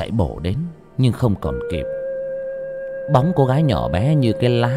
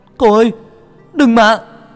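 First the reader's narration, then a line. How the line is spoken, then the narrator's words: Shouting. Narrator (Vietnamese): Tôi hét lên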